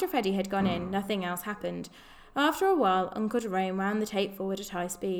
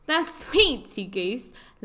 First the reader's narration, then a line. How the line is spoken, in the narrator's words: laughed Polly